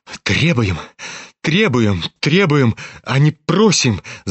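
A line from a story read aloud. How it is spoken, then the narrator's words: Embarrassed babbling. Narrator (Russian): залепетал Бурдовский и покраснел, как рак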